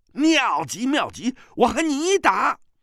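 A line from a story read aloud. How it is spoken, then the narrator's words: Gleeful. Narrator (Chinese): 他那更是心花怒放啊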